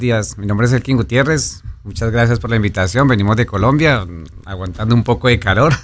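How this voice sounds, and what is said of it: Colombian Spanish accent, Medellín. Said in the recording (Spanish): “no tienen más que hablar y ya me siento en Medellín ... Qué bello ese acento”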